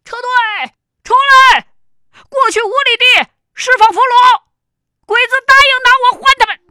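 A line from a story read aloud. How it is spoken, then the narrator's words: Loud shout. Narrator (Chinese): 胡锦回头冲着这边大喊道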